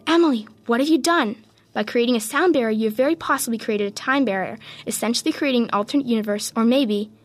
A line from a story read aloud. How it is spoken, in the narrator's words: gasped